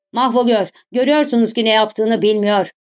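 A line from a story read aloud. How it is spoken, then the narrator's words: Shouted. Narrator (Turkish): diye bağırdı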